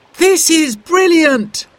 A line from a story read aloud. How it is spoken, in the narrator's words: cried Simon